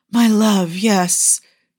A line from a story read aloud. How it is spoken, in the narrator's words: Yusuf gasped